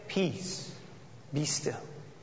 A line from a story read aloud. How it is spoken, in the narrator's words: Jesus very gently said